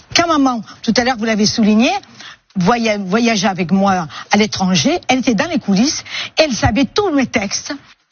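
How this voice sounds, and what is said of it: Woman speaking with an accent. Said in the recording (French): “C'est une dame qui a un accent, déjà.”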